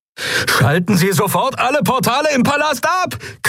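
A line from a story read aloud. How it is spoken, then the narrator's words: Shrieking over sirens. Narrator (German): kreischte Galet über die Sirenen hinweg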